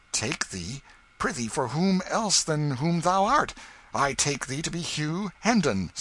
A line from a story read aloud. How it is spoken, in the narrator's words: said Miles sharply